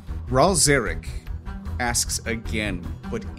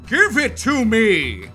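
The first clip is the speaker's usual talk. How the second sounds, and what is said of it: Thunderous, booming demand. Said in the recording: “in a thunderous voice, and just demands”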